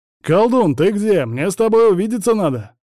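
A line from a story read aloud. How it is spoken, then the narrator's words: Loud shout. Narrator (Russian): Громко крикнул он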